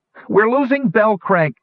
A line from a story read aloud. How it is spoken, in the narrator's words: Fitter cried